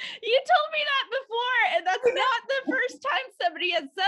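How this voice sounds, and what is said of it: Usual voice. Nothing is said of it.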